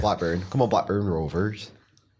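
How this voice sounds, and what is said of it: Broad northern Blackburn accent put on. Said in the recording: “I've still got a broad northern accent ... It's not really broad, is it? ... If I went Blackburn ... Go talk like that ... do all of your voiceovers like that”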